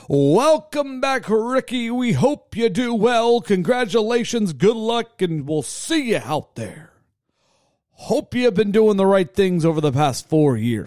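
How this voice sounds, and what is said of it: A bad impression of another person. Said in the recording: “I don't know why I use that voice. That's definitely not how Dave Castro sounds ... you do a horrible Dave Castro impression.”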